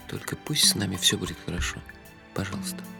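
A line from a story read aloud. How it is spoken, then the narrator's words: Terrified numb-lipped whisper. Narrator (Russian): замереть от ужаса и прошептать онемевшими губами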